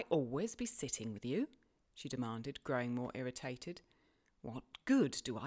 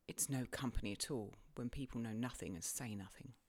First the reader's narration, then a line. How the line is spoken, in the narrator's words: she muttered